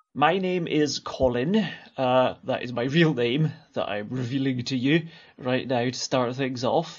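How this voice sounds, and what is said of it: Scottish accent. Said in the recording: “here's ... with his Scottish accent.”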